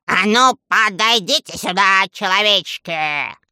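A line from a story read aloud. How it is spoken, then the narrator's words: Menacing thunderous command. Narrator (Russian): Грозно приказал волшебник, и его голос прозвучал, как раскат грома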